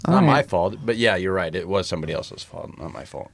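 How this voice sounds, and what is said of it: Groggy, congested voice. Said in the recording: “your voice is a little bit more groggy today ... You got a head cold”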